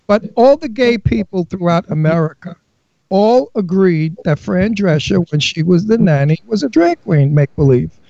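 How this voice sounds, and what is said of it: New York accent. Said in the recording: “I'm from Brooklyn. I have a New York accent.”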